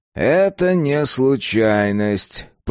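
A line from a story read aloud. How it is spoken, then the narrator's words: Drawl. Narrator (Russian): протянул Крушевский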